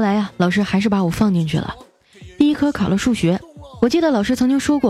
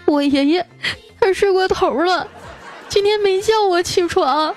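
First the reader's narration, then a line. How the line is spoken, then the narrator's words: Crying. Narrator (Chinese): 我继续哭着说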